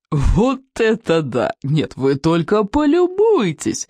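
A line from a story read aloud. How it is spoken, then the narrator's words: Exclaimed after laughing. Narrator (Russian): воскликнул он, всласть нахохотавшись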